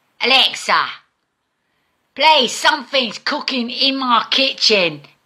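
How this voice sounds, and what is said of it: Put-on American accent. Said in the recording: “an idiot in an American accent”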